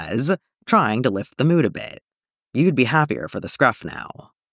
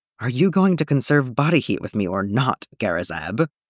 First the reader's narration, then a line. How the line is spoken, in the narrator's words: Zeb chuckles